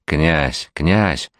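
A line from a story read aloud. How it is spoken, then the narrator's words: Boy whispering from behind. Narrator (Russian): шептал сзади отрок Николай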